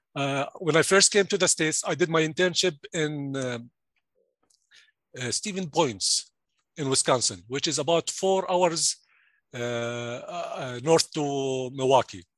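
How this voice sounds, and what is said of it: Jordanian-accented English. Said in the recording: “I'm originally from Jordan. And I'm sure you can you can hear my accent right now.”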